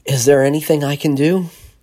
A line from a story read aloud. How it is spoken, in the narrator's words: Washburn asked breathlessly